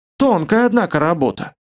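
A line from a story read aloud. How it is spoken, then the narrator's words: Snorted. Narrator (Russian): хмыкнул Маслов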